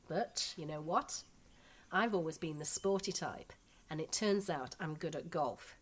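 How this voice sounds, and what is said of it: Yorkshire English accent. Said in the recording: “Unlike me, they've lost their Yorkshire accents ... I love your accent. To me, it's just like the Beatles.”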